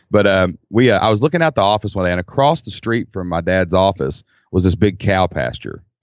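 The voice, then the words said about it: Kentucky accent. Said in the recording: “we're in Kentucky. I mean, you can tell by my accent, probably”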